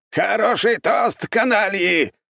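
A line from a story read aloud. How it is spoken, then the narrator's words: Loud shout. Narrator (Russian): громко выкрикнул Аполлон Генрихович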